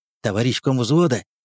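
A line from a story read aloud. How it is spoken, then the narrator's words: Whispered. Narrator (Russian): сказал он шепотом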